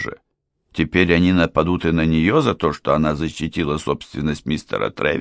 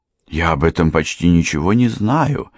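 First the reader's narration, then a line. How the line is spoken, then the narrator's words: Frightened speech. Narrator (Russian): испуганно проговорила миссис Трегор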